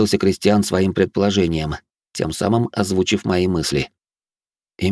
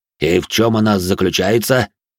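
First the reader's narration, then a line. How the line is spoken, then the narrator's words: Deep bass voice. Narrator (Russian): пробасил де Журиньи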